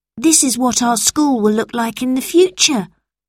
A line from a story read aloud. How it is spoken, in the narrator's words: said Robert